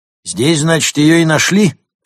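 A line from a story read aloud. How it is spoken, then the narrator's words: Shouted from above. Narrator (Russian): крикнул сверху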